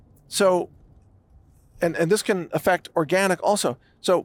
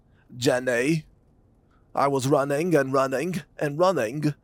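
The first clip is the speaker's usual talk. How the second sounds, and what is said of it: Forrest Gump character voice. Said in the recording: “my Forrest Gump impression”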